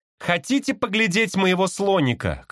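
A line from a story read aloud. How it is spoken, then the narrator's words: Shout. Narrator (Russian): крикнул я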